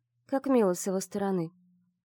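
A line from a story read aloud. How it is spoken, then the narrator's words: Curt dry retort. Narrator (Russian): сухо отрезала Вивьен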